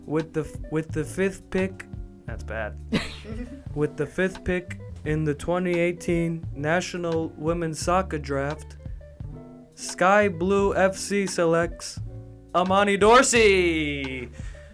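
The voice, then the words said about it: NBA commissioner announcer voice. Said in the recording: “I'll do it in my David Stern voice ... That was my NBA commissioner voice”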